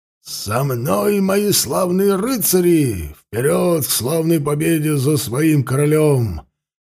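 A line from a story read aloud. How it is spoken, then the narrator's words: Muffled roar behind visor. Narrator (Russian): глухо проревел из-за забрала его голос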